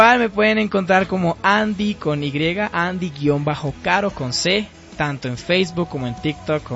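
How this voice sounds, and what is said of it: Usual voice. Nothing is said of it.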